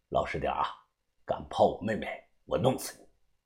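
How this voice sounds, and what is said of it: Quiet, hushed threatening voice. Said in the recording (Chinese): “小声的说道”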